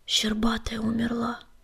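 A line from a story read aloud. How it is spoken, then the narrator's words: Mournful echoing whisper. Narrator (Russian): прошептал Огнегрив, и стены пещеры эхом подхватили его скорбный шепот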